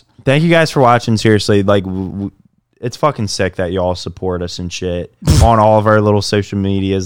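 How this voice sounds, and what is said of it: Maryland American accent. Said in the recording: “Maryland ... Accent.”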